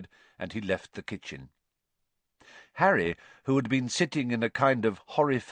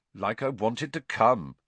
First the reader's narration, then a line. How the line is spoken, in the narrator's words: said Harry coldly